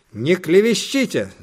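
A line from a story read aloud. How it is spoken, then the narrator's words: Hot-tempered shout. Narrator (Russian): запальчиво крикнула мама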